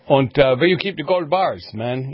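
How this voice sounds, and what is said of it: Mock German-Chicano accent. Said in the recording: “good accent. I think it was kind of like somewhere between Vato and Gestapo”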